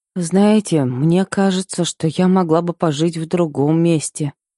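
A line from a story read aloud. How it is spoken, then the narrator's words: Uncertain, hesitant. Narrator (Russian): произнесла я неуверенно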